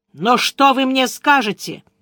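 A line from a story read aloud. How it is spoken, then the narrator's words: Ringing voice, blurted. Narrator (Russian): звенящим голосом выпалила Яна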